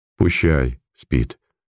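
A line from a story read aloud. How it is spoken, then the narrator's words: Mumbled. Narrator (Russian): пробормотал Илья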